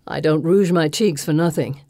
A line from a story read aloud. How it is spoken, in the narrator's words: Lily Trimble says on a sigh